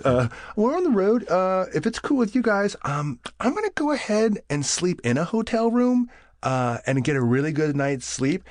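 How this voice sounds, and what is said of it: Squirrely different voice. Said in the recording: “oh, much squirrely, that's why I'm in a different voice.”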